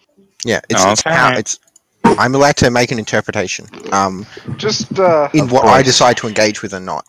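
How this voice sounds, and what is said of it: Australian accent. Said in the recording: “I'm from Western Australia. That's why my accent is different.”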